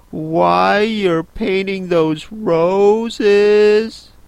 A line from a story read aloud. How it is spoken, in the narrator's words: said Alice a little timidly